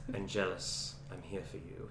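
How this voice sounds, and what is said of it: Menacing soft-spoken accented character voice. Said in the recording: “You have to have the accent there too ... I do okay with the accent ... You got his cadence really well ... he does have that really, like, menacing, soft-spoken mm-hmm. cadence”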